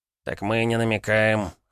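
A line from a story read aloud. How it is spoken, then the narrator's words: Wry snort. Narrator (Russian): хмыкнул Довлатов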